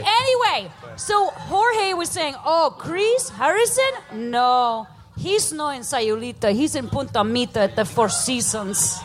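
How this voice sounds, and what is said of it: Put-on Mexican accent. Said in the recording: “try to do a Mexican ... accent? ... That's what he sounds like.”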